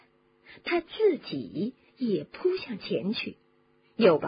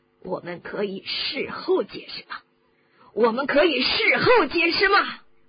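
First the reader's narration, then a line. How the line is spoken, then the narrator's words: Roaring. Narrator (Chinese): 布莱克咆哮着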